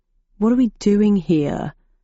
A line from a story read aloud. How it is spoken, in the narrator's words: he asked in a bored voice